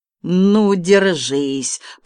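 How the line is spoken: Booming thunderous voice. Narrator (Russian): прогремел Балабуха

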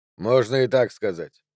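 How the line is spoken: Indistinct mumble. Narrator (Russian): невнятно пробормотал Джо

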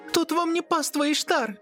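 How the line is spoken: Muffled outburst, near tears. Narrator (Russian): Выпалила, закрывая багровое лицо обеими руками, словно готовая разрыдаться

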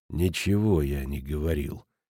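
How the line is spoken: Quiet reply. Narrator (Russian): тихо ответил Футаки

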